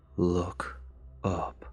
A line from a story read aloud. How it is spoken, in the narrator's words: it said in a low, soothing voice